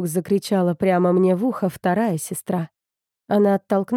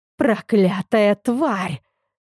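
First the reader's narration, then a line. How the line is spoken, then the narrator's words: Spiteful hiss. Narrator (Russian): злобно прошипела вторая сестра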